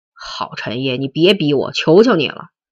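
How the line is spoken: Angry shout. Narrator (Chinese): 卞亚军愤怒的大叫道

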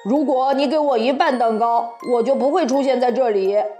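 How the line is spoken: Blunt. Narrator (Chinese): 小红帽不客气地说

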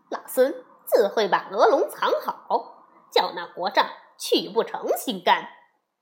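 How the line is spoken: Laughing. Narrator (Chinese): 悟空笑着说

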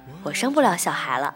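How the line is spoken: Nonchalant, smiling, after pause. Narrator (Chinese): 他沉吟半晌，然后继续用他那张无所谓的脸充盈一抹笑，回答我

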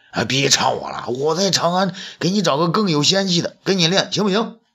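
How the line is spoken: Anxious, clamoring. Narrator (Chinese): 东方朔急得嚷嚷起来

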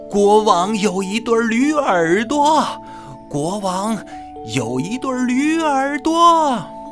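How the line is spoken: Loud shout. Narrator (Chinese): 理发师对着洞口大声喊

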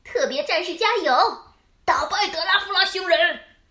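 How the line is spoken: Group shouting. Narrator (Chinese): 大家还是喊着

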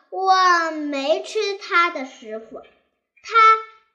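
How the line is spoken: Angry. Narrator (Chinese): 黄风怪怒道

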